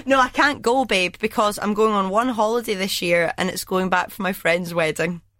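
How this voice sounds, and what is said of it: Strained, nearly lost voice. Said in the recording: “I've nearly lost my voice.”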